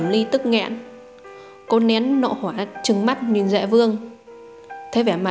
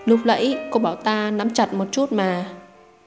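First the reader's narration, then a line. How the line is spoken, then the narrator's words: Sigh. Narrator (Vietnamese): Hành Vân đã thở dài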